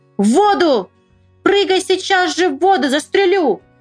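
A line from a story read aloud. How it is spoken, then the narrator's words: Shouted. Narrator (Russian): закричал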